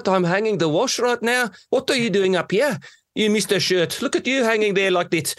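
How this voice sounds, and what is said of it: Put-on Johannesburg South African accent. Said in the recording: “the South African accent was always this holy grail of accents ... combinations so of different sounds ... talking to them in a Johannesburg accent”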